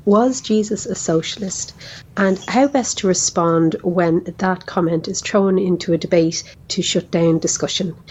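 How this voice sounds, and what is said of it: Lovely Dublin Irish accent. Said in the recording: “what a lovely accent ... has, huh? ... I would have sounded like that if my grandfather had stayed in Dublin”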